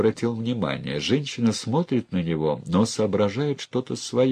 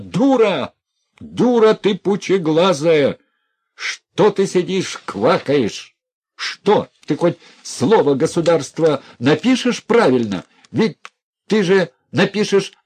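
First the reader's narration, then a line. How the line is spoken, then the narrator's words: Furious, unrestrained shouting. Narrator (Russian): Все взорвалось в Князеве злым протестом, все вскипело волной гнева, он закричал неприлично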